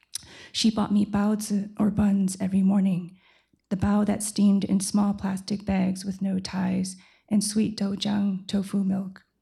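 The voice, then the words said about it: Hoarse, strained voice. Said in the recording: “I'm losing my voice.”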